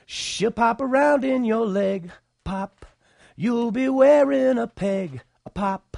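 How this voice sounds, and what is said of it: Hoarse, sore-throated singing voice. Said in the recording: “I have a sore throat is the deal”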